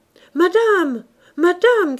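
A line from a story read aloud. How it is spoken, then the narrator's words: Shouted. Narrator (French): cria Clémence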